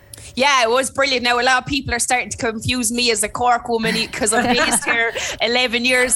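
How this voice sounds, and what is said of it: Thick Limerick Irish accent. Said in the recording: “my Limerick accent ... my Limerick accent is the thickest they've ever heard”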